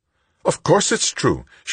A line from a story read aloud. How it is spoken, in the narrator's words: she snapped